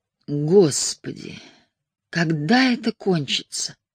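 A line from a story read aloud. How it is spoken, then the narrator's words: Moaning to herself. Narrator (Russian): простонала про себя Шарлин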